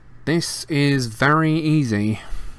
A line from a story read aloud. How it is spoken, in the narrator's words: Malfoy drawled, loud enough for Harry to hear him